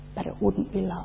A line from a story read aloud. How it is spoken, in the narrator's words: The Creator interrupted softly